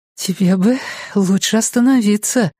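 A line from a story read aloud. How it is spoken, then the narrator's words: Breathy exhale. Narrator (Russian): выдохнула она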